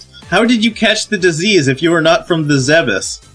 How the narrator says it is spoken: Scrooge shout

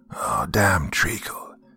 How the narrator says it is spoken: one of the men mutter to himself

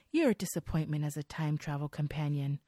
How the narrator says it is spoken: Sophia says softly

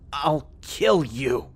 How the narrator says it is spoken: she snarled back in a choking, gasping voice as she moved viciously, attempting to struggle loose from the grip of this thing

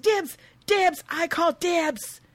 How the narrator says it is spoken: Nadine screams

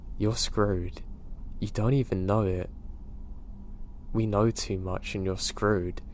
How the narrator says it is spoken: he calmly said

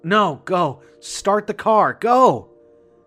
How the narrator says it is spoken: yelled frantically

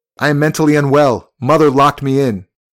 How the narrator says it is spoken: He shouted

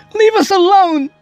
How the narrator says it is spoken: she screamed

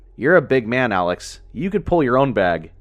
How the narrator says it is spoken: he said with a laugh

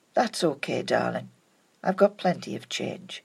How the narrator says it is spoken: Gently, he said

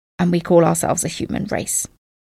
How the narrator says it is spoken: the president stormed out muttering

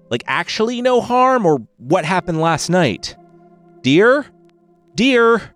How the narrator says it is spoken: Ian called out and sighed

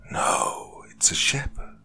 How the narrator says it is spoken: hissed in reply

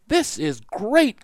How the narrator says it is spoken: cried Jack

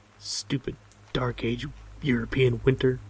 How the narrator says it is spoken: I mutter

